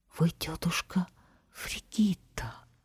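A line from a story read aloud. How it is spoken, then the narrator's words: Barber's surprised whisper. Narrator (Russian): парикмахер удивленно прошептал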